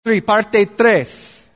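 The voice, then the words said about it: Put-on Mexican accent. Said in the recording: “that's my Mexican accent. I don't even know if it was very good.”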